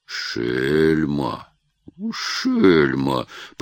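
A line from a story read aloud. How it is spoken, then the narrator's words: Grumbling under breath. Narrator (Russian): проворчал себе под нос Татищев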